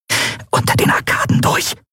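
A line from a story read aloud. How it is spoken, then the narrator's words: Hissing. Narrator (German): zischte Endriel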